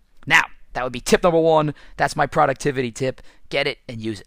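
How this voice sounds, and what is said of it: Raspy, hoarse voice. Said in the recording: “I'm losing my voice a little bit from doing all this screaming... that's why my voice is raspy”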